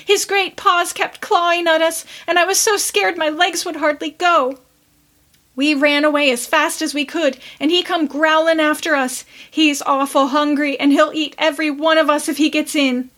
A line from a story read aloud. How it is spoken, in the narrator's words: quavered Roxy